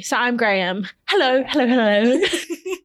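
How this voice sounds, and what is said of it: Graham Norton accent impression. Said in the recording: “Are you going to do that accent the whole time?”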